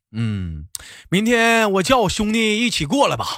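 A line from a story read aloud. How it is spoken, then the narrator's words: With a slight smile. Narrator (Chinese): 脸上露出了一丝的笑容，然后跟我说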